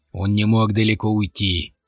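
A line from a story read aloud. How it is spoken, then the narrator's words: Deep bass voice. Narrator (Russian): пробасил другой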